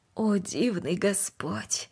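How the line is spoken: Quiet. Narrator (Russian): Тихо произнесла

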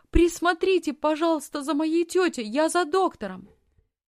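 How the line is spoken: Shouted. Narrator (Russian): крикнула фрау Зайлер

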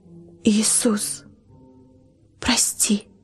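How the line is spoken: Timid whisper, numb lips. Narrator (Russian): не крик, а шепот робкий с онемевших губ слетает

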